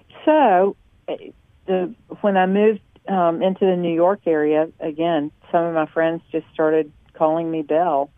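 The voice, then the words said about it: Southern American accent. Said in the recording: “because I'm Southern ... They had never heard of heard my accent before.”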